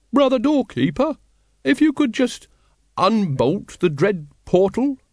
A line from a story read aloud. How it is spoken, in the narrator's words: he quavered